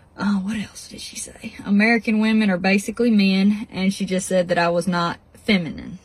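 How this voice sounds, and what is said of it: Speaks with a regional accent. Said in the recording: “so you can hear her accent”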